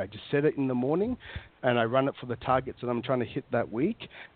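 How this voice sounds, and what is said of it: Australian accent. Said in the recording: “are you hamming up your Australian accent this time? Because I said you didn't sound like an Australian last time... Do I sound more Australian?... yeah, you do.”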